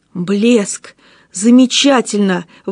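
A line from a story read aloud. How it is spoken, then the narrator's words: Exclaiming. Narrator (Russian): воскликнул Гаптен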